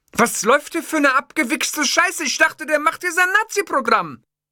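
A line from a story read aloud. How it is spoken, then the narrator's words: Furious shouting. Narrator (German): Sein Kopf war dunkelrot, dann drehte er sich um und schrie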